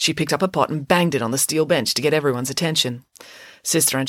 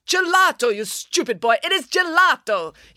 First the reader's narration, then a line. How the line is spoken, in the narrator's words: yelled Sister Angelica